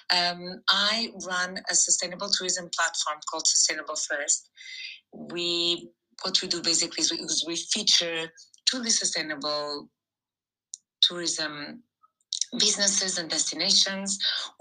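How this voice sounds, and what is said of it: Slightly rusty, hoarse voice. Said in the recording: “My voice is a little bit rusty. Too much air conditioning going on in my life these past few weeks”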